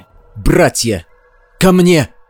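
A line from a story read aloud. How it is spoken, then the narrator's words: Shouted. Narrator (Russian): Прокричал он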